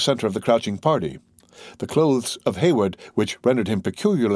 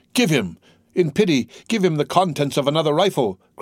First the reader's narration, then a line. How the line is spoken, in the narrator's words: cried Duncan, turning away his eyes in horror